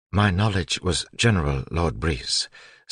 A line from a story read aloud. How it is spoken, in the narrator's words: Sazed said in his even voice